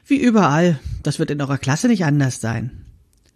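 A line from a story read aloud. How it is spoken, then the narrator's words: Woman sighing. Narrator (German): Die Frau seufzte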